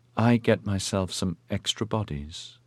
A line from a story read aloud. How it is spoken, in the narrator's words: she said in a quiet voice